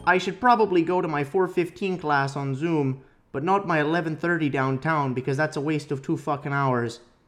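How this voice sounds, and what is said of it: Imitates another person's voice. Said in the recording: “this is my really great Jordan Peterson impersonation, eh? ... that was a really weird introduction”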